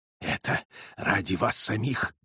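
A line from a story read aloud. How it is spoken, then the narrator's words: Hoarse. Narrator (Russian): сказал он хрипло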